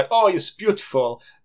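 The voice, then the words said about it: Terrible generic foreign accent. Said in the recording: “That wasn't even French. That was just a terrible accent. ... generic foreign.”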